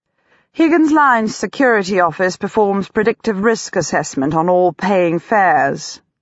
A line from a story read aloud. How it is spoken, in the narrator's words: Pygmalion says blandly